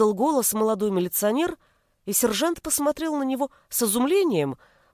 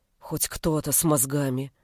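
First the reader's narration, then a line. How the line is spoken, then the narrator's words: Quiet. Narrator (Russian): тихо произнес Шилов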